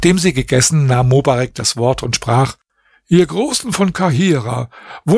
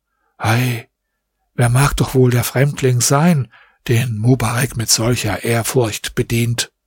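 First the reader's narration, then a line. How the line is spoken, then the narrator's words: Quiet astonished murmuring. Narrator (German): waren darüber sehr verwundert und sprachen leise untereinander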